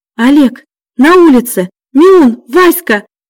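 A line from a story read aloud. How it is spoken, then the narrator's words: Shout. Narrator (Russian): закричала Аня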